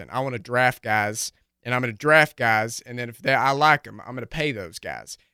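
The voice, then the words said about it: Chris Ballard impression, thick country accent. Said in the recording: “Chris Ballard's like, he's got a real thick country accent.”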